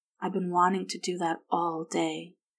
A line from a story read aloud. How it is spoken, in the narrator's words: he said softly in her ear